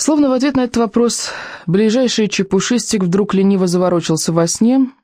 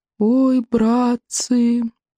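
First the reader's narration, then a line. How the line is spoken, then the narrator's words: Groaning young creature. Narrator (Russian): простонал рыбьенок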